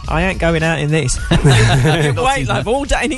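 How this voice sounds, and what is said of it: Put-on cockney accent. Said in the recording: “That's a very good impression, that. ... I thought of being a cockney.”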